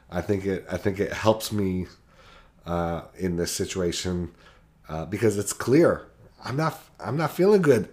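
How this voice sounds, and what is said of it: Badly hoarse, sick voice. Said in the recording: “an external expression of my sickness in my absolutely demolished voice.”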